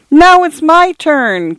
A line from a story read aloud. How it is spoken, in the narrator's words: came the distant wail